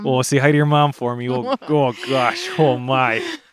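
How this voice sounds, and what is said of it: Exaggerated stereotypical Wisconsin accent. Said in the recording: “I sound immediately like a Wisconsinite... Just as stereotypically as I possibly can... accent... so stereotypical, like a 90-year-old grandma from Wisconsin”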